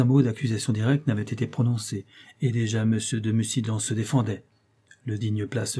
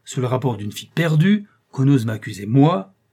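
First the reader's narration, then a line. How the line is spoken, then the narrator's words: Exclaimed. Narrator (French): s'écria le comte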